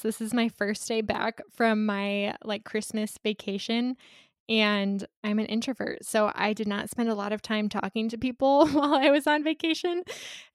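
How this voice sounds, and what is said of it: Worn-out, slightly crackly voice. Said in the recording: “I feel like I'm already losing my voice... talking for even 20 minutes at this point seems to have worn out my voice, so I'm sorry if I sound a little bit crackly”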